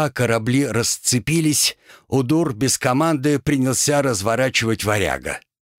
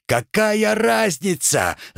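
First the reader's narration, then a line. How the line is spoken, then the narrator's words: Shouting. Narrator (Russian): заорал Олег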